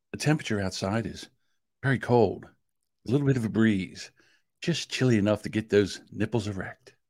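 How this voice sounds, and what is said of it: Calm, smooth radio announcer voice. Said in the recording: “doing your calm voice, but it seems like you're doing your sex voice ... This is the NPR radio voice.”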